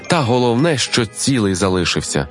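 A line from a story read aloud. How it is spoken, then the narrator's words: Calm addition. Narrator (Ukrainian): спокійно додала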